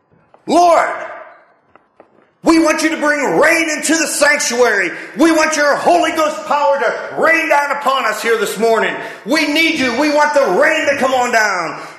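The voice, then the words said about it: Imitates a fired-up young preacher. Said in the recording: “I'll do my best impression, which isn't going to be very good.”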